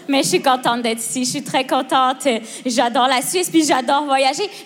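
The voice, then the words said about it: Québécois French accent. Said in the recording (French): “ça s'entend que es québécoise”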